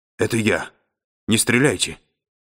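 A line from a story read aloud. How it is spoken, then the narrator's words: Stifled would-be whisper. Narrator (Russian): Мичман говорил придушенным голосом, долженствовавшим изобразить шепот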